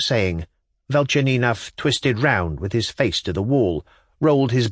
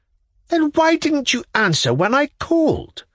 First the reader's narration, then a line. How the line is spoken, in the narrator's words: cried Velchaninov angrily after a minute's pause